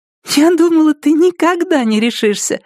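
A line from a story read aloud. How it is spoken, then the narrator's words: Said, then giggling. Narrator (Russian): сказала она и хихикнула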